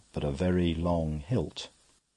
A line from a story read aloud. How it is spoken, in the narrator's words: assented Brown, solemnly like an owl